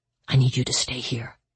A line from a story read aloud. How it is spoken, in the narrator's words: she whispered